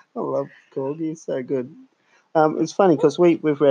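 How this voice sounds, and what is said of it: Usual voice. Nothing is said of it.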